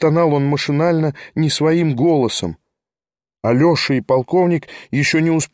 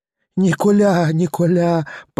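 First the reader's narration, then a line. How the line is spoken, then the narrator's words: Moaning. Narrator (Russian): простонала опять жертва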